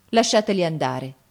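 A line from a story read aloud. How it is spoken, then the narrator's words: Said coldly. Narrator (Italian): disse Gianni freddamente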